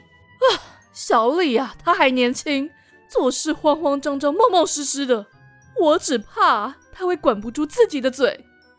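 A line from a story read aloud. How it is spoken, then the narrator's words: Heavy sigh. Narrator (Chinese): 阿梅重重叹口气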